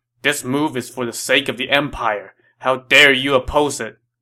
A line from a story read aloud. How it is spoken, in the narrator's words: Dong Zhuo reproached him angrily